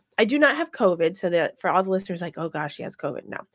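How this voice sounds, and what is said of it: Congested voice from a cold. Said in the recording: “I sound like this today. Can you hear it? ... It sounds weird. It sounds very weird in my ears. ... I have a cold.”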